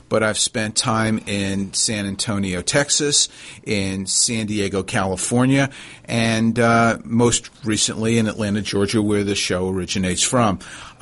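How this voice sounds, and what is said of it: New York accent. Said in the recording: “I'm from New York originally, if you couldn't tell that from my accent”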